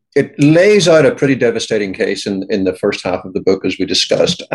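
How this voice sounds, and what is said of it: British accent. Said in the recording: “you can tell by my accent, I grew up in the UK”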